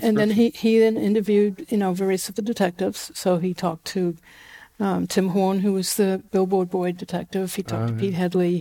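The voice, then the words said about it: New Zealand accent. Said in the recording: “my Kiwi accent ... you grew up in New Zealand”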